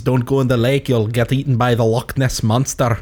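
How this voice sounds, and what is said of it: Unconvincing Scottish accent, Scandinavian-tinged. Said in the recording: “no idea what the fuck accent that was. Scottish. ... like a Scottish Swedish. I was trying to do Scottish. ... Little Swedish flair. I had no confidence ... Not Swedish, Norwegian flair.”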